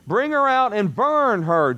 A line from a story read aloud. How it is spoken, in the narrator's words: Judah shouted